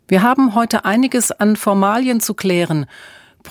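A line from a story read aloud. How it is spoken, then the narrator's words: Shouted back. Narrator (German): brüllte Emma zurück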